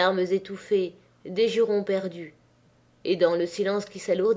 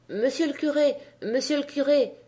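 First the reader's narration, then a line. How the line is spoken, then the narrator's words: Stammering. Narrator (French): bégaya la Maheude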